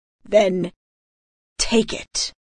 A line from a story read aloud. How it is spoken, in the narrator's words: Valerion growled